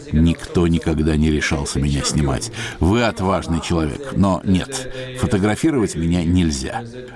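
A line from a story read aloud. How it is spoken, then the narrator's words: Laughing. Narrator (Russian): рассмеялся и сказал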